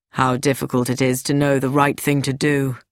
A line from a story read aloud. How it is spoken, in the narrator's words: Louis Sericold said with a sigh